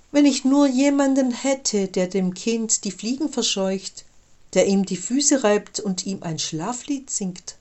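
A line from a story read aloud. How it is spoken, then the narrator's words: Sigh. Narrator (German): seufzte Maria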